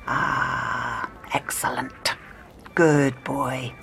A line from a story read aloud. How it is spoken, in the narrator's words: The doctor murmured to himself